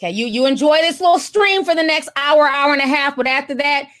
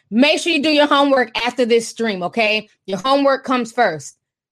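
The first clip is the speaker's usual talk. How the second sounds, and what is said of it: Imitated motherly scolding voice. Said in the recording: “in my mom voice.”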